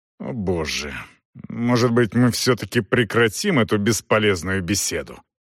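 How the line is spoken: Suppressed irritation, through teeth. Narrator (Russian): Подавив раздражение, Элар процедил сквозь зубы

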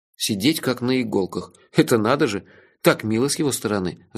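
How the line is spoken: Sighing. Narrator (Russian): вздохнул я

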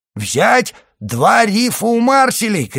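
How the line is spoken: Shouted. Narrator (Russian): крикнул капитан

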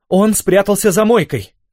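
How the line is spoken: Distant shout, young woman. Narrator (Russian): крикнула издалека молодая женщина

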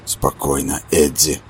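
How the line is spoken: Whisper. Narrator (Russian): прошептал Роланд

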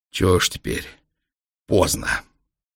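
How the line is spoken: Hoarse. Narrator (Russian): трехглазый хрипло сказал

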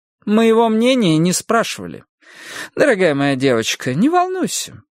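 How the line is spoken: Cheerful, brisk. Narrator (Russian): бодрым тоном продолжила Эдди

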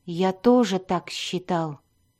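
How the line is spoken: Muttering. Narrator (Russian): пробормотал Дзирт

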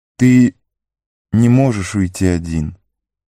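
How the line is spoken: Soft, female ruler. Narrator (Russian): мягко произнесла владычица

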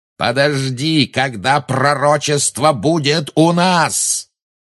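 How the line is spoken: Roar. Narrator (Russian): взревел Малфой

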